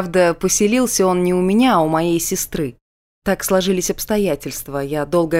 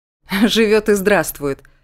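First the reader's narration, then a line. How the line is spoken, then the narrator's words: Laughing. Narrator (Russian): засмеялся Рауль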